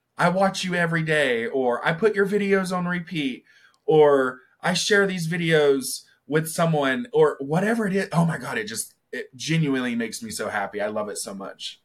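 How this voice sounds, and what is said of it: Southern American accent. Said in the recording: “You've got a great accent. ... Is it very Southern or? ... Yeah. But especially when you say superstar.”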